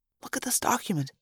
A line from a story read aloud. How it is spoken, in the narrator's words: Marco whispered